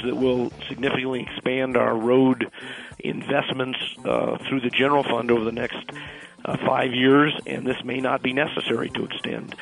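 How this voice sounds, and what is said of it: Congested voice from a cold. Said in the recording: “As you can tell, I've got a cold”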